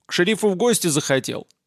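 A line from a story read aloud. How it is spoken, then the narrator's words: Sharp question. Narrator (Russian): резко поинтересовался он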